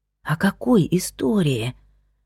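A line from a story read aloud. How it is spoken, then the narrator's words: Whispered. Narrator (Russian): прошептала она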